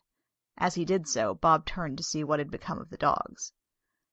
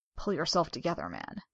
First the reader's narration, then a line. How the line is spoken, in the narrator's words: he said in an undertone